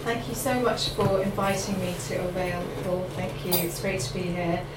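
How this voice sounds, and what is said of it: Mixed Irish and London accent. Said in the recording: “my accent ... I've had a sort of Ireland, London background”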